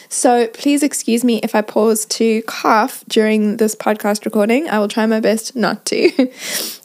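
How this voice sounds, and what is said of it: Croaky voice from a cold. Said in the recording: “my voice is not normally this croaky, but I have a bit of a cold.”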